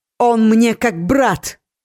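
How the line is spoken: Sudden shout. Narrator (Russian): вдруг выкрикнула Ори

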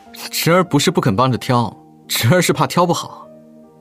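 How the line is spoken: Laughing. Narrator (Chinese): 笑道

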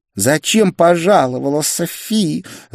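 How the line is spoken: Angry hiss. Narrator (Russian): зло прошипела блондинка

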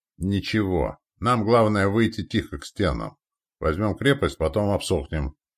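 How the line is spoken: Grumbling. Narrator (Russian): проворчал

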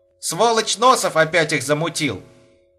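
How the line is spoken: Nearly shouted. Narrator (Russian): почти выкрикнул Саша

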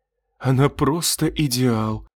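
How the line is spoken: Resigned sigh. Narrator (Russian): обреченно вздохнул он, ожидая взбучки

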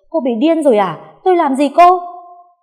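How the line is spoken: Shocked shout. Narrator (Vietnamese): Con Hiền bàng hoàng không kịp phản ứng, chỉ hét lên

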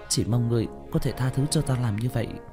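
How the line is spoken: Head-bowed muttering. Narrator (Vietnamese): Ngô Đồng cúi đầu, lẩm bẩm

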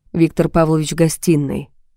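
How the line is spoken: Quiet. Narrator (Russian): тихо сказал он

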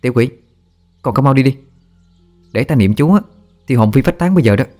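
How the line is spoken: Stern shout. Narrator (Vietnamese): Tôi quát nó

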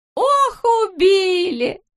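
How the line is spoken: Pained moan. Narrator (Russian): застонала она

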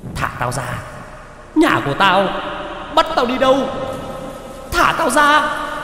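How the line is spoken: Wild screaming. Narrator (Vietnamese): Người đàn bà trên vai vẫn cứ trợn mắt mà gào thét

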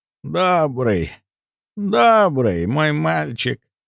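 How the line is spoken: Creaky voice. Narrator (Russian): Проскрипела госпожа Син

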